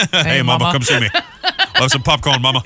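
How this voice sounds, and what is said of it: Imitates another person's voice. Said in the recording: “doing an Elvis impression ... It's very good.”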